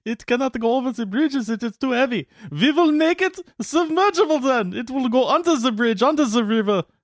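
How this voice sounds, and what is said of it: Bad put-on German accent. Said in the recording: “That's my German accent. It's bad. It started out okay. ... It started out mediocre and it went south from there.”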